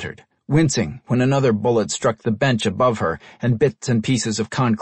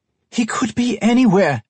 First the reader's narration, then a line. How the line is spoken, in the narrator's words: Helen shouted above the screams and shouts